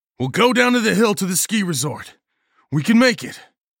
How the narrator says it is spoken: I yelled

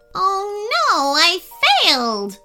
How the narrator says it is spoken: wailed the coconut crab

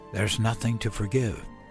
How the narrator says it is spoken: I whispered into her wispy gray hair

